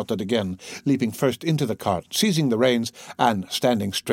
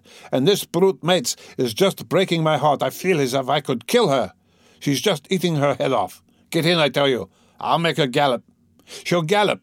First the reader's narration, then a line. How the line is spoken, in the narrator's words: he shouted from the cart